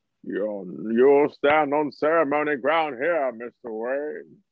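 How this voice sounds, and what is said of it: Impression of Tom Hardy's Bane. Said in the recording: “He did the same shit with Bane, where he sounded like Apu for some reason.”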